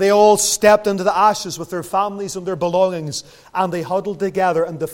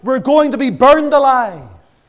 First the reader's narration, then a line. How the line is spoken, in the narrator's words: a little girl cried out